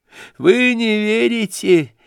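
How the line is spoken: Hysterical laughter. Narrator (Russian): истерически смеялся Ипполит

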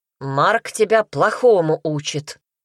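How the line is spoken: Angry booming. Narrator (Russian): Прогудел он сердито

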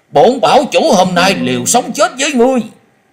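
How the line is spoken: Frantic desperate yell. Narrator (Vietnamese): Hắc thạch bảo chủ tự biết hôm nay khó lòng thoát khỏi kiếp số, nhưng hắn không cam tâm cúi đầu, cất giọng điên cuồng hét lớn

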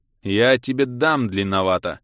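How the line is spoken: Growl. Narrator (Russian): рыкнул я

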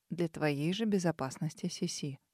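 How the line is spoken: Calm reply. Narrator (Russian): спокойно ответил принц

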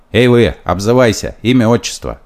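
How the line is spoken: Shout. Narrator (Russian): нарядчик кричал

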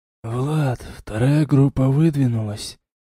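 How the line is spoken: Quiet. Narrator (Russian): тихо сказал Нет

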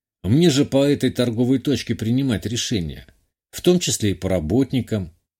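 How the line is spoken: Calm explanation. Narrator (Russian): спокойно ответил, дополнил

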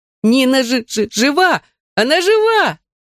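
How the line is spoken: Ecstatic scream. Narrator (Russian): завопила от восторга Додо

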